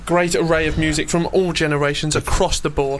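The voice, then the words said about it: Polished radio presenter voice. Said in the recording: “That is your proper radio voice.”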